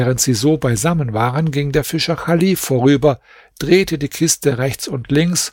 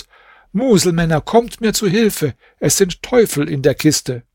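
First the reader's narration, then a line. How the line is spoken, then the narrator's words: Shouting out window. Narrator (German): Chalif … rief zum Fenster hinaus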